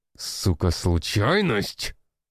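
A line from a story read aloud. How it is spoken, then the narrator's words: Angry bark. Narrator (Russian): рявкнул генерал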